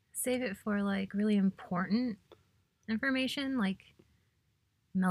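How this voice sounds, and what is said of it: Usual voice. Nothing is said of it.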